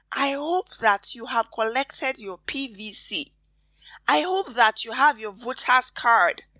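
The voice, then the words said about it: Whispering. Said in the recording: “You guys hear the way I'm whispering, right?”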